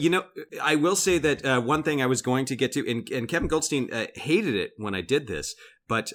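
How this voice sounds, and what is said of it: Usual voice. Nothing is said of it.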